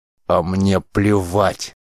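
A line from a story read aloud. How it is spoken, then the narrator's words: Growling. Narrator (Russian): зарычал сотник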